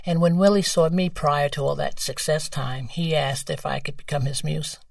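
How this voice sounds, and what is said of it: New York accent. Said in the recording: “That's a great accent. ... Well, I am from New York.”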